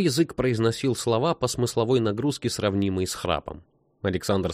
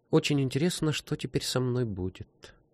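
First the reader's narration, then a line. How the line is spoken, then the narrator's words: Quiet boy. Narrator (Russian): тихо сказал мальчик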